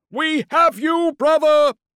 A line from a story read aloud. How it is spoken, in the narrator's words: yelled in defiance